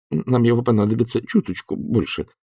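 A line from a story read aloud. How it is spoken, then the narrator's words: Mumble. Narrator (Russian): промямлил Сидни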